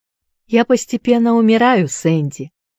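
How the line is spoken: Calm reply. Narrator (Russian): спокойно отвечал

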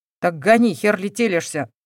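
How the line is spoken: Growling, barely restrained. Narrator (Russian): прорычал, еле сдерживаясь

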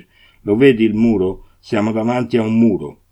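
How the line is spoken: Upset, angry shouting. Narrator (Italian): gridava Victor, che era sconvolto e arrabbiato quanto lui

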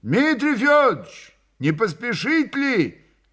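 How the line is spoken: Sudden shout. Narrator (Russian): крикнул вдруг у дверей лавки Андрей

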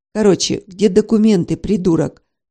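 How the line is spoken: Rude question. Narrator (Russian): грубо спросила

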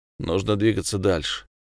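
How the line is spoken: Thoughtful. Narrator (Russian): Скотт задумчиво произнес

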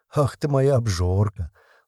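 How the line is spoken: Tender cooing. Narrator (Russian): ласково приговаривала Жужа

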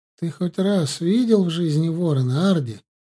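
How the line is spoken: Laughing question. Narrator (Russian): спросила она и тут же, спохватившись, засмеялась еще громче

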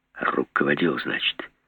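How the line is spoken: Quiet question. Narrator (Russian): тихо спросил Жеглов

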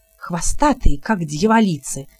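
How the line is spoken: Whispered. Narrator (Russian): прошептал Гриттир

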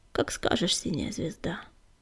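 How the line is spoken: Quiet. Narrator (Russian): Огнегрив негромко ответил

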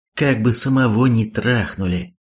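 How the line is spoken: Sigh. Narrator (Russian): вздохнул Хонда

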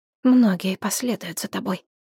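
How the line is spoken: Quiet. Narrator (Russian): тихо сказал Сети

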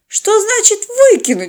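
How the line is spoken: Indignant interjection. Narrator (Russian): возмущенно встряла в разговор Полина

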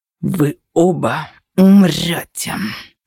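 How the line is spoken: Growled. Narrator (Russian): зарычал Анубис

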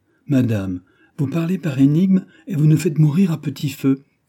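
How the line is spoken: Frightened exclamation. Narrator (French): s'écria Montalais, qui, effrayé de voir Louise de plus en plus pâle, ne savait à quel saint se vouer

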